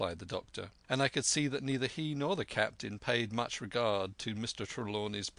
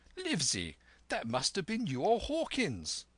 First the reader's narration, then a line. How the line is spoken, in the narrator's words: cried the squire